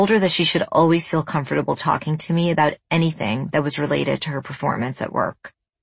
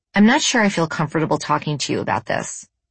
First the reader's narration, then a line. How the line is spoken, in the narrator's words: she said